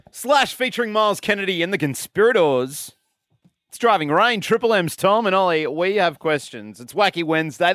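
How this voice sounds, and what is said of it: Loud yelling radio host voice. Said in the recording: “I'm yelling. I'm a yelling radio host.”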